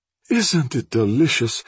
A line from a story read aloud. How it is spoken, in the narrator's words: sighed Odile